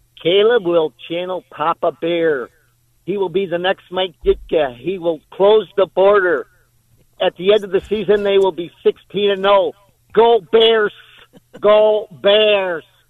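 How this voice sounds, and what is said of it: Chicago Bears Superfan impression. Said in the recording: “Not a great super fan impersonation”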